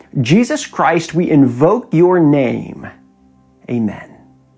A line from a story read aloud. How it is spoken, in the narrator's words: a man stood at the dais and shouted